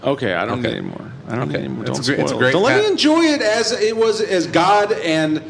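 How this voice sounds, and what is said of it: Usual voice. Nothing is said of it.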